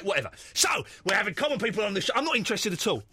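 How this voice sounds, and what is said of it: Common English accent, arguing. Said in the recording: “When you argue in common accent, it sounds brilliant.”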